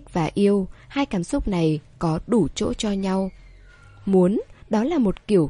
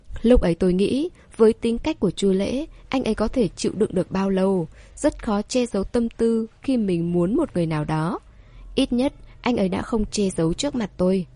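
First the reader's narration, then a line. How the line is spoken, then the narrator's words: Smiling explanation. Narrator (Vietnamese): Tề Thư Di mỉm cười giải thích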